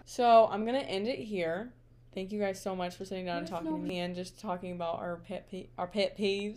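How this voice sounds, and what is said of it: Southern drawl. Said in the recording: “I don't know why I got like a southern drawl.”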